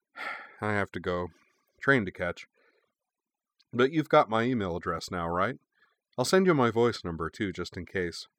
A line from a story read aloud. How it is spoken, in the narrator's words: he sighed and added